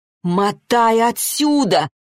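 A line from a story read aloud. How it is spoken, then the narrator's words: Loud shouting. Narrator (Russian): уже в голос закричала Арина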